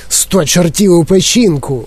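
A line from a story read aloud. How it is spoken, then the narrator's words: Exclamation. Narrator (Ukrainian): вигукнув пан Тіві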